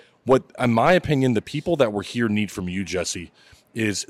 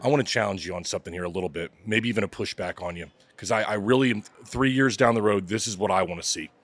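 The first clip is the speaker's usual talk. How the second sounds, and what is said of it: Emotional, choked-up voice. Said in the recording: “I don't know why I get emotional and shit like this”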